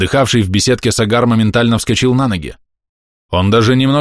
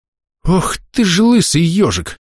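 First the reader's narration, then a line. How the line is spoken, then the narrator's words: Stunned exhale. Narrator (Russian): выдохнул я, ошарашенно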